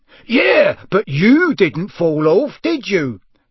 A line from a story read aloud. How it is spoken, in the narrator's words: roared Amos genially